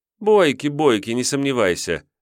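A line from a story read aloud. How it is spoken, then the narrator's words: Female guest laughing. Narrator (Russian): засмеялась гостья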